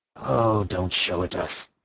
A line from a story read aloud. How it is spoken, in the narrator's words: he said wearily